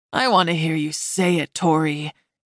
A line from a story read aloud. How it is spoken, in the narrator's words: Caleb said, his voice rough